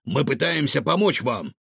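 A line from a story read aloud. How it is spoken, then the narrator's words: Stern. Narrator (Russian): строго сказал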